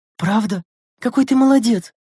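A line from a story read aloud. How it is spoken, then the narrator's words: Exclamation. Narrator (Russian): воскликнула Лена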